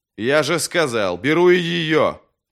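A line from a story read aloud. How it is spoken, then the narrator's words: Fierce impatient bark. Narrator (Russian): Потеряв терпение, свирепо рявкнул Вест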